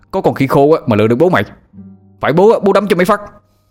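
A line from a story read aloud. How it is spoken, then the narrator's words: Man shouting. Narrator (Vietnamese): Anh Thông hét lên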